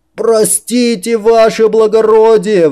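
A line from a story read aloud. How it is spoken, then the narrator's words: Three guards yelling together. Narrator (Russian): в голос заорали все трое стражников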